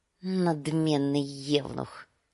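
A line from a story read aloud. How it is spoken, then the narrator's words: Mutter. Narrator (Russian): пробормотал Визирис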